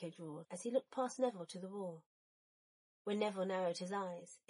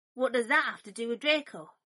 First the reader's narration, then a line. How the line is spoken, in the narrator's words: Neville asked sharply